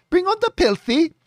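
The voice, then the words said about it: Imitated Filipino accent. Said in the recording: “Filipino accent”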